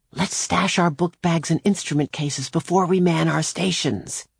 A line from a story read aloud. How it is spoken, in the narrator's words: Claudia whispered to Jamie